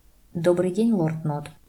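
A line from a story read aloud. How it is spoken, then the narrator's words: Quick reply. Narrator (Russian): Люциус ответил так быстро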